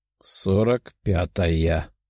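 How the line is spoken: Muttering. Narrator (Russian): пробормотала Варвара

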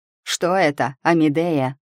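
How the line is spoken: Shout. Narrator (Russian): крикнул Герах

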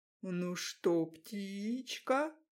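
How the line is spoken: Mocking drawl. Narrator (Russian): издевательски протянул

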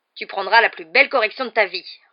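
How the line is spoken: Roaring. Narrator (French): rugit l'oncle Vernon

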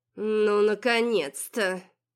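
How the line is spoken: Young woman, through gritted teeth. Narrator (Russian): сквозь зубы процедила барышня

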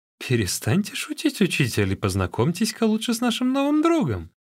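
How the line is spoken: Laughing. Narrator (Russian): Чао Гай рассмеялся и сказал

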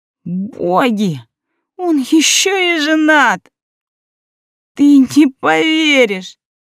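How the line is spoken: Choked sob. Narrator (Russian): Всхлипнула, чувствуя, как к горлу подкатывает жесткий ком

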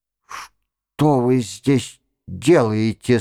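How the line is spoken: Sudden hoarse question. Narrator (Russian): спросил он вдруг охрипшим голосом

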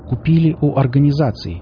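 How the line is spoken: Clear, distinct young man's answer. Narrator (Russian): четко и внятно ответил высокий парень

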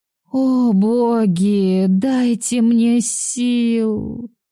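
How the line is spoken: Moan. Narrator (Russian): простонала

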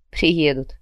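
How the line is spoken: Wry snort. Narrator (Russian): хмыкнул Джо

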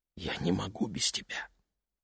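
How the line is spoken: Whisper. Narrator (Russian): прошептала Лени

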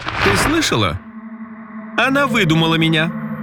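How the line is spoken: Collector laughing loudly. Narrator (Russian): расхохотался коллекционер

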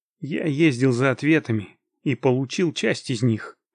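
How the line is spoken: Plain. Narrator (Russian): ответил я

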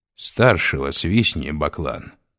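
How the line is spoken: Plain. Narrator (Russian): сказал он

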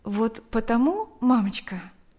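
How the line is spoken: Plain. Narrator (Russian): ответила дочь

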